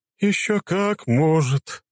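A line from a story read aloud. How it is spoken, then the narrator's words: Sad ghostly voice. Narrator (Russian): грустно сказал призрак Ганана Иллюзорного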